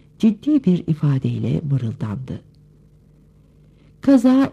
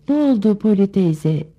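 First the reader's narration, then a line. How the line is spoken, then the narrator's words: Shouting. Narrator (Turkish): diye bağırdı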